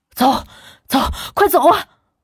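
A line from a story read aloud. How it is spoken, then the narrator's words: Breathless, panting urging. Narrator (Chinese): 大口大口的喘着气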